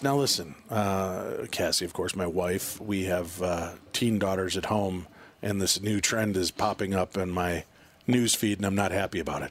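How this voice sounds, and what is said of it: Calm public-radio announcer voice. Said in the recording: “my voice is suddenly taking on this NPR voice”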